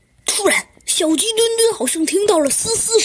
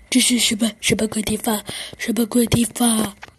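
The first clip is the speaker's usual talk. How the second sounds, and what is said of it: Quiet frightened muttering. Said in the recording (Chinese): “小声的嘀咕道”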